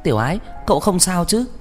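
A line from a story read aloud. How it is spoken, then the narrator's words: Quick shout. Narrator (Vietnamese): Hứa Ôn Noãn phản ứng rất nhanh, liền hét lên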